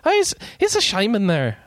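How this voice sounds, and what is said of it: Poor put-on Irish accent. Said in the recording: “like an Irish ... I can't do a good Irish accent.”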